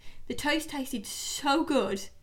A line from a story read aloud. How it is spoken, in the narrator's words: I cried